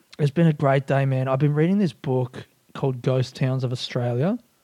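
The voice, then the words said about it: Quiet, hushed speaking voice. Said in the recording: “I'm doing the inside voice ... trying to keep it down”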